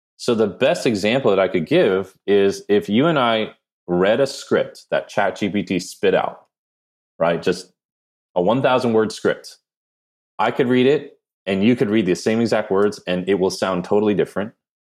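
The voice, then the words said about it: Jersey Korean accent. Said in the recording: “my weird Jersey Korean accent or I don't know what I have”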